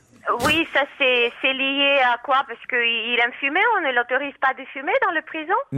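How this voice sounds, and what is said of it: Cute Russian-sounding accent. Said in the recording (French): “C'est mignon cet accent ... les Russes”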